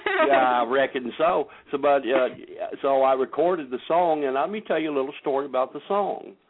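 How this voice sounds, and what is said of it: Country accent. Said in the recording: “my country accent”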